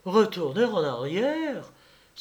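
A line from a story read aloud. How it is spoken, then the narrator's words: Crying out bravely. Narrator (French): s'écria bravement Germaine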